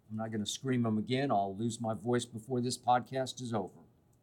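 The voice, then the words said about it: Slightly hoarse voice. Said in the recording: “I'm actually still a little hoarse from screaming”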